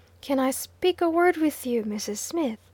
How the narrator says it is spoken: said she

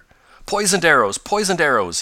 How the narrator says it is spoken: he exclaimed

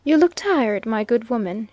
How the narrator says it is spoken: said kindly

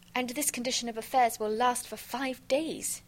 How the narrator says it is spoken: exclaimed Miss Nelly Underdown

